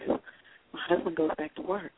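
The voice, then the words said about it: Whispering. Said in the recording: “let me just whisper this.”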